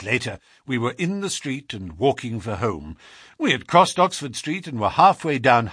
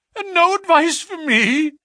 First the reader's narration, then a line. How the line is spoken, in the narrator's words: cried Blessington in a breaking voice